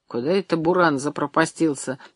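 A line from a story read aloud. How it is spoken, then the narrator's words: Muttering. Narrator (Russian): пробормотал Абросимов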